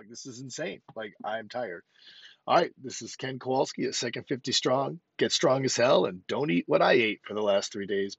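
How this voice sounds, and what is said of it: Slightly breathless, tired voice. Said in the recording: “I think I'm a little out of breath from talking this long”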